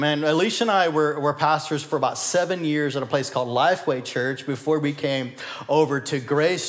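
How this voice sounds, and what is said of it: Usual voice. Nothing is said of it.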